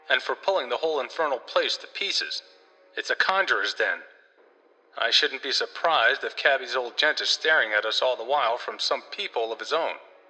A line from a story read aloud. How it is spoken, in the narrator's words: cried Sidney